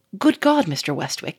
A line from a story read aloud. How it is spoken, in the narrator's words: he exclaimed